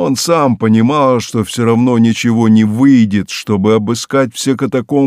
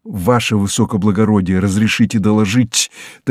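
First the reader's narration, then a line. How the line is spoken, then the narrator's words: Mysterious whisper. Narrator (Russian): таинственно шепнул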